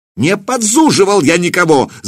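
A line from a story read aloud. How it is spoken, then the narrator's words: Shouted. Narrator (Russian): закричал Семирад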